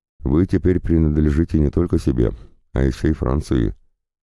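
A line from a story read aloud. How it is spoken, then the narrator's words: Mildly reproachful tone. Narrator (Russian): говорил он немного укоризненным тоном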